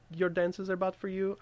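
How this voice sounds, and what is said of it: Put-on semi-Slavic accent. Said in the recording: “I just put like a semi-Slavic accent”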